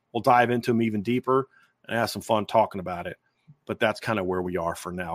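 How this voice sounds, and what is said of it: Tired, strained voice. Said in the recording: “My voice is starting to go a little bit”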